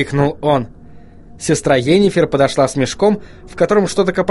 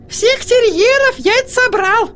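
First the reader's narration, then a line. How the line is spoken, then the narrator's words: Squeaky thin voice. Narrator (Russian): пропищала сестра Йеннифер тонким голоском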